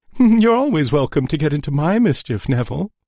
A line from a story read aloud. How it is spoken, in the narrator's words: giggled Felicia suggestively